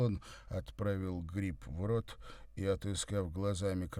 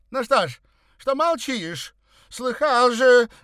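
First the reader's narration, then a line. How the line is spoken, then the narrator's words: Shouting. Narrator (Russian): закричала дама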